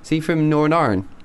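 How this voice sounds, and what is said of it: Put-on Northern Irish accent. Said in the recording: “Very good. ... I lived there for 3 years. That's why I can do such a good accent.”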